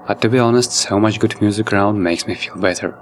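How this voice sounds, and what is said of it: Sick-sounding voice. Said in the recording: “apologize for my voice as I suddenly got sick”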